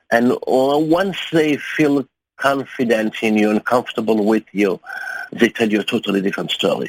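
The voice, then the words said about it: German accent. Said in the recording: “I present myself as a German journalist ... with my accent”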